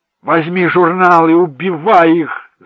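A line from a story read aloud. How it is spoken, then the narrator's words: Yelling. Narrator (Russian): завопил Джек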